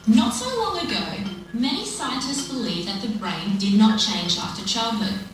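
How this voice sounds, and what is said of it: Australian accent. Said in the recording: “a lovely Australian accent”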